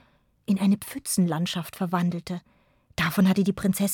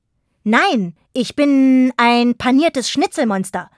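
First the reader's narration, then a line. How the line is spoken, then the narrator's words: Figure shouting. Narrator (German): rief die Gestalt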